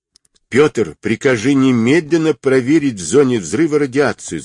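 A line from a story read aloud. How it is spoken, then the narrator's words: Shouting. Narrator (Russian): закричал Гуров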